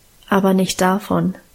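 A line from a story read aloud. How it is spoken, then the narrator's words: Calm answer. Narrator (German): antwortete Guste ruhig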